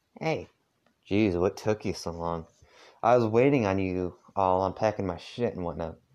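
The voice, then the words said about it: Heavy put-on Southern accent. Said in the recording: “I'm trying to do a southern accent. I think I'm doing it too heavy ... my weird attempt at this accent”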